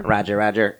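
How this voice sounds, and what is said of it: Imitates a battle droid voice. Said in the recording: “That's pretty good. You're just full of new impersonations.”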